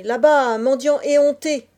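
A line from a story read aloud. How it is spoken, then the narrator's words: Peasant shouting. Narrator (French): cria le paysan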